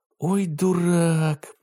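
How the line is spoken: Groaning. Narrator (Russian): простонал Ботан

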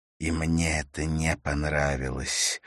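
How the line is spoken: Through gritted teeth. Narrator (Russian): процедил Моргород

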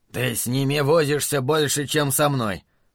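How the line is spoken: Grumbling. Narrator (Russian): проворчал Джуд

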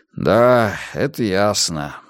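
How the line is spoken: Sighed. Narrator (Russian): вздохнул Мунк

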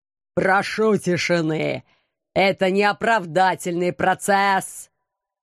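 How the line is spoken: Menacing roar. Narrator (Russian): грозно взревел лощеная спина

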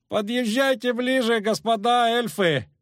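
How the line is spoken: Shouted. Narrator (Russian): крикнул человек в шляпе

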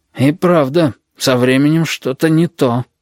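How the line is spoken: Breathed out. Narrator (Russian): выдохнул рядом с Галькой Хансен

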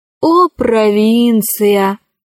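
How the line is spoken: Sighing woman. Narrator (Russian): вздохнула Кора

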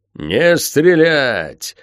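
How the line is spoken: Roar from all sides. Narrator (Russian): взревело со всех сторон

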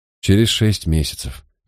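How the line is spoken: Sighing. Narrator (Russian): вздохнул сержант

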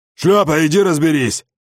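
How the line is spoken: Barked. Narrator (Russian): Гаркнул отчим

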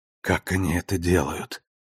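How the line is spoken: Choked whisper. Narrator (Russian): прошептала она сквозь ком в горле

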